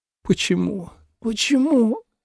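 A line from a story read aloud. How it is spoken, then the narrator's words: Hoarse mutter. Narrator (Russian): сипло бормотал Дерек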